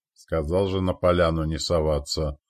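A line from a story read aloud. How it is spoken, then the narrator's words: Commander's grumble. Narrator (Russian): буркнул командир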